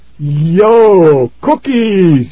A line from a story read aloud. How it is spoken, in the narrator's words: he cried